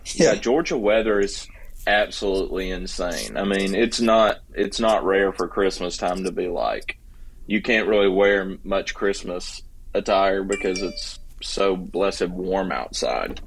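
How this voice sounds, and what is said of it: Southern US accent. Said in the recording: “sorry about my accent ... You're a southern guy”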